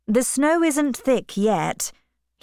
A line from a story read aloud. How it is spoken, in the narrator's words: said